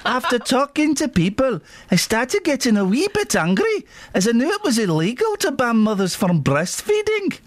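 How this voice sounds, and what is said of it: Put-on Scottish accent. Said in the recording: “Is it Scottish you're doing there? ... Aye, it is. I'm a wee lassie from Kilmarnock.”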